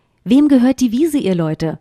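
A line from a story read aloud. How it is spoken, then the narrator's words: Plain question. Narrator (German): fragte der Kater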